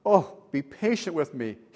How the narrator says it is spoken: begged

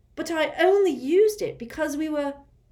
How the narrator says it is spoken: said Harry angrily

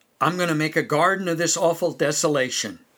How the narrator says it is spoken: said

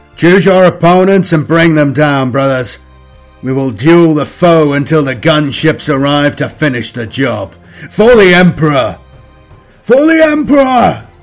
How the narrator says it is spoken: cried

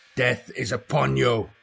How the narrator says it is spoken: Khorne roared

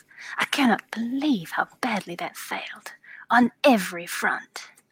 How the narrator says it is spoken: Mirakin mutters to herself

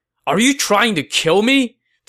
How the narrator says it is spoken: Cao Cao said angrily

